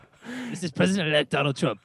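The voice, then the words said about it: Imitates another person's voice. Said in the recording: “You're not Trump.”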